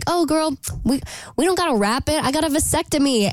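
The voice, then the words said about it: Put-on sexy voice. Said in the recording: “that reenactment was so incredible ... That's my sexy voice.”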